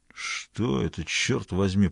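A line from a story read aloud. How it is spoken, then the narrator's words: Muttered through teeth. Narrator (Russian): процедил сквозь зубы Ребус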